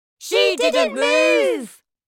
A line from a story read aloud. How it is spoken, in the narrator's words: they cried